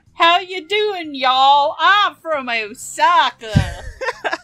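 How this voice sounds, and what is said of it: Put-on Southern American accent. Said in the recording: “the typical Osakan accent for English dubs is Southern”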